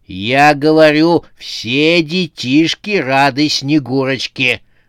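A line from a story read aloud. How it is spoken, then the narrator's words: Growling. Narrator (Russian): прорычала она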